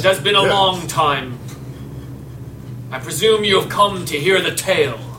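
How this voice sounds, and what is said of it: Voices a stone statue character. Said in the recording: “Pretend like I'm talking like a stone guy ... Can't make my voice sound like a stone.”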